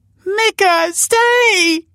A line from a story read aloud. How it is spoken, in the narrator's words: She cried